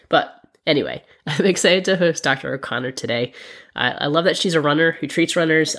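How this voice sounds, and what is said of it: Sick, under-the-weather voice. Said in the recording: “As you can hear from my voice, I am a little under the weather ... makes my voice sound more like a radio voice”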